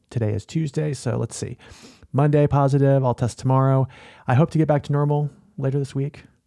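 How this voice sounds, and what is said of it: Sick, throaty voice. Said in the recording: “I have COVID. Can you hear it in my voice? I have stopped this recording just a few times over the last few minutes just to cough and clear my throat.”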